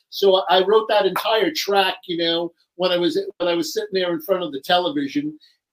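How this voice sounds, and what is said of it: New York accent. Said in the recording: “I'm from New York, as you can hear by my accent.”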